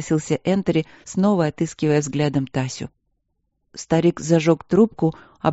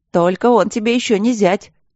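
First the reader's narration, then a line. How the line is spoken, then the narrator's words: Laughing shout from crowd. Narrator (Russian): смешливо выкрикнули из толпы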